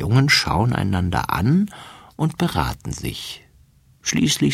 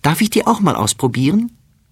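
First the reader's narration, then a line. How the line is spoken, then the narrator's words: Calling out. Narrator (German): ruft sie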